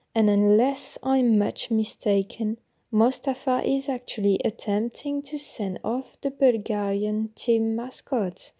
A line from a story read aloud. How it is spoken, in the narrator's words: said Bagsman's voice